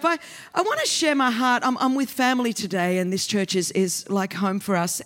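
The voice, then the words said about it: Australian accent. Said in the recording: “this is an Australian accent. This is how the colonies speak.”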